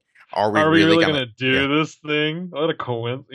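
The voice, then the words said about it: Imitates another person's voice. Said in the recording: “your Sydney voice ... How's my Sydney voice go? ... these bad impressions”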